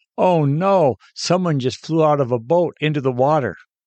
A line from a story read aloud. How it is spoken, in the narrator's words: She screamed to her husband